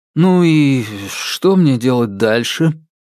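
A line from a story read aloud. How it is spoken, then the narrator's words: Gloomy question. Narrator (Russian): мрачно поинтересовался он у пространства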